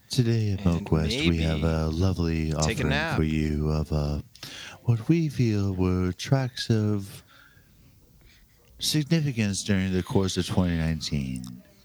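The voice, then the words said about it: Soft public-radio announcer voice. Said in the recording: “Already got that NPR voice going ... maybe I should dig out my NPR voice too ... We can do it all NPR style ... we'll put you to sleep”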